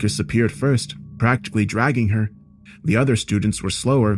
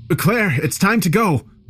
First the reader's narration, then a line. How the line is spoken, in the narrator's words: Driving frantically, I yelled